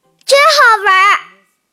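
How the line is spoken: Shouting. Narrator (Chinese): 佩奇叫道

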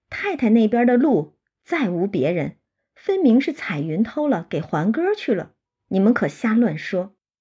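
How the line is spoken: Laughing. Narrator (Chinese): 晴雯笑说

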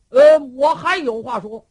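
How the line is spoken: Shouted. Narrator (Chinese): 旁边有人喊

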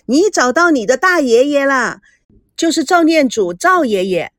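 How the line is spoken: Shouting. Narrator (Chinese): 孙娜对着赵熙喊着

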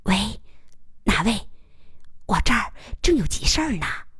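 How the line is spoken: Low, hushed question. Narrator (Chinese): 他压低声音问

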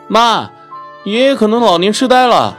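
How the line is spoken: Calling out. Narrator (Chinese): 小雨喊

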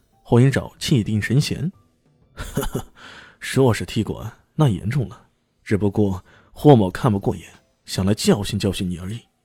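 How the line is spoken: Cold sneer. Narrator (Chinese): 冷笑一声，说道

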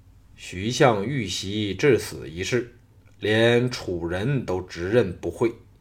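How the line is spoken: Startled, low grave voice. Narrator (Chinese): 吕不韦大感愕然，心知不妙，沉声说

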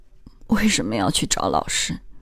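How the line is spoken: Crying, repeated murmuring. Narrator (Chinese): 他哭了，反复念叨着

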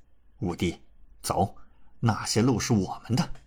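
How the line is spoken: Deep voice. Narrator (Chinese): 李乾沉声道

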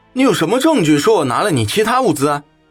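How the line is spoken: Loud and aggressive. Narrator (Chinese): 他的声音又大又冲

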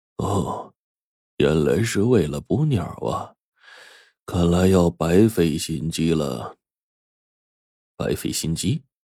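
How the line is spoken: Slow, unhurried. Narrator (Chinese): 刘教授反而不着急了，慢吞吞的说

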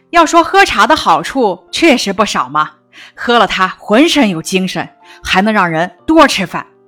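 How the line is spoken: Smiling. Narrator (Chinese): 毛主席笑着向大家点头说

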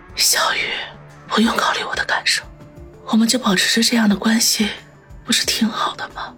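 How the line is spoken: Tender, barely audible. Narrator (Chinese): 方心眼底闪过一丝柔情，声音小到几乎听不见了

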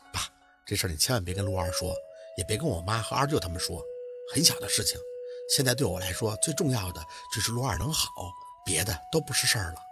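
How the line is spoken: Forced smile. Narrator (Chinese): 宝四扯着嘴角，笑着

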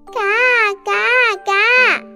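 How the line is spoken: Loud duck quacking. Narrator (Chinese): 鸭子大声叫了起来

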